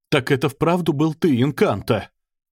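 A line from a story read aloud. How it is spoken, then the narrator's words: Breathless exclamation, big man. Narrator (Russian): выдохнул рослый, крепко сложенный человек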